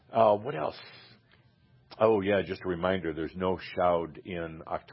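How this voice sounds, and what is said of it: Usual voice. Nothing is said of it.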